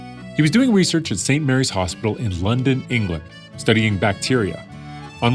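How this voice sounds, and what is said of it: Usual voice. Nothing is said of it.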